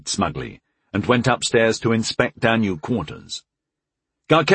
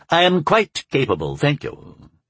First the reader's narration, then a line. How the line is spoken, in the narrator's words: he said haughtily